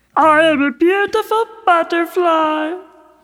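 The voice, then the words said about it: Made-up caterpillar character voice. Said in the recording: “It's a caterpillar. ... Caterpillar guy. ... What accent is that? ... Caterpillian.”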